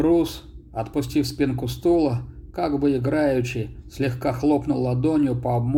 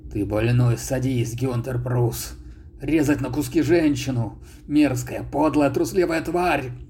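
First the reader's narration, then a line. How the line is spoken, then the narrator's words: Choked hiss. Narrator (Russian): прошипел задушенно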